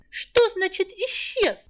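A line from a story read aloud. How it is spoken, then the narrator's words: Shrill angry attack. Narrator (Russian): визгливо напустился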